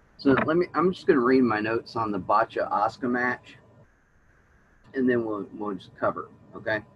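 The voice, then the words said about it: Strained, fading hoarse voice. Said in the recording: “I'm losing my voice”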